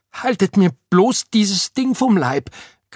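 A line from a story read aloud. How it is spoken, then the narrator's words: Shrieking. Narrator (German): kreischte Oda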